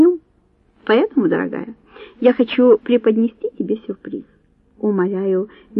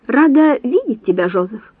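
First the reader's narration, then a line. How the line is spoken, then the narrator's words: Halting exclamation in Italian. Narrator (Russian): воскликнула, с трудом выговаривая итальянские слова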